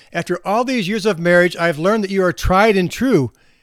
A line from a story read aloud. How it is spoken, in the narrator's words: she said in a louder voice